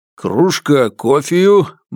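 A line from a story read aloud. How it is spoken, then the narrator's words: Jaunty snort. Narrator (Russian): браво хмыкнул Алексеич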